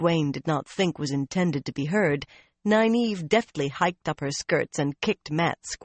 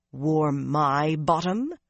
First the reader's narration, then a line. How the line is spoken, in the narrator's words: With a muttered growl of